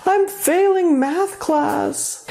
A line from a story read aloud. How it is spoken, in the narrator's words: if they got a B on a test, they wailed